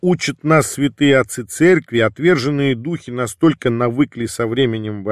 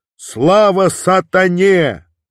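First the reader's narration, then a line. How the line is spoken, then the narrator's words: Demon shouting loudly. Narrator (Russian): демон из одержимой крикнул на весь храм в ухо священнику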